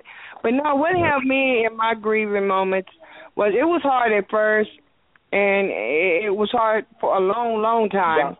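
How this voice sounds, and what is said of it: Very loud voice, close to phone. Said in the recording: “You're a little close in your phone. Your voice is real loud.”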